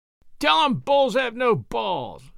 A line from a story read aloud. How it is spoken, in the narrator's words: Mike shouted, very drunk, from the other end of the table